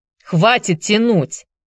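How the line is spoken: Impatient shout. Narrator (Russian): нетерпеливо прикрикнул Элиот

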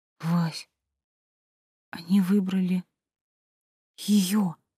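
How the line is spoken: Tearful whisper. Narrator (Russian): прошептала я, сдерживая слезы

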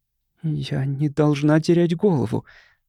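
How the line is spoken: Girl whispering. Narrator (Russian): прошептала девушка

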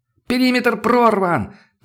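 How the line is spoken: Sudden yell from afar. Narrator (Russian): тут же заорал от своей бойницы

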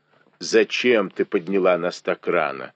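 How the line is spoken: Nuns grumbling. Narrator (Russian): ворчали монахини

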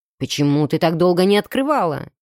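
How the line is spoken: Nearly growled. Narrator (Russian): Чуть ли не прорычал

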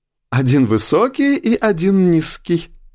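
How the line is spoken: Remark then ringing laugh. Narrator (Russian): отметила она, а затем коротко и звонко рассмеялась

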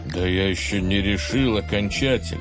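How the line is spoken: Muttering cliff. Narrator (Russian): пробормотал утес

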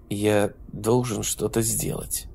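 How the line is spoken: Quiet, restrained. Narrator (Russian): сказал он тихим, сдержанным голосом

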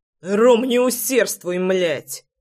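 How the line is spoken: Barking shout. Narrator (Russian): Рявкнул я

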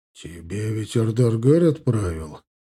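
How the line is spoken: Quiet whispered question. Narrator (Russian): тихо шепотом спросил Арсений

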